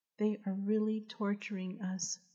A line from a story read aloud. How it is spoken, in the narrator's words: the woman said